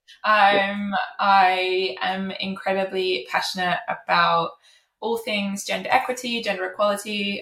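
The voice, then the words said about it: British accent. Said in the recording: “I am British, as you can probably tell from my accent.”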